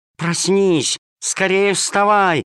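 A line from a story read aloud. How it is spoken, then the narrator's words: Shouting. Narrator (Russian): кричала она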